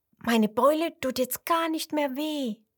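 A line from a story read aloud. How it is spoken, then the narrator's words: Call. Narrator (German): ruft sie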